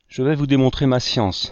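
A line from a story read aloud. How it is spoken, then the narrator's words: Girl exclaiming mischievously. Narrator (French): s'écria malicieusement la jeune fille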